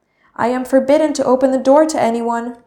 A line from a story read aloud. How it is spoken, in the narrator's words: said Snow White